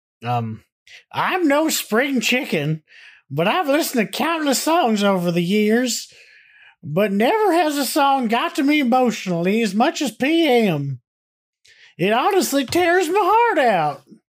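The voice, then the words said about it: Put-on old man voice. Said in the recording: “in my old man voice”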